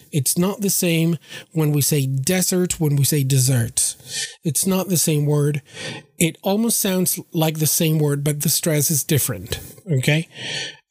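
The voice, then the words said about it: Strained voice, not fully working. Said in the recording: “my voice is not, 100%, in working conditions”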